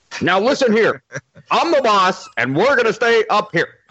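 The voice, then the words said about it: Dave Chappelle-style white guy voice. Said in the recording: “who sounds like Dave Chappelle doing a white guy impression.”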